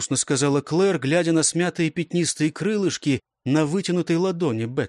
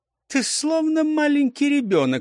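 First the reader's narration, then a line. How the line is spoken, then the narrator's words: Laughing. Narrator (Russian): смеясь сказала Элис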